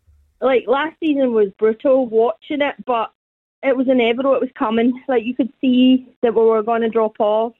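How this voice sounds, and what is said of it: Glaswegian Scottish accent. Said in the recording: “I'm from the east end of Glasgow ... The accent has not dropped off one bit”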